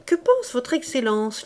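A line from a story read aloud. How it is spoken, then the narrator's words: Laughing. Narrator (French): lui dit en riant le comte Mosca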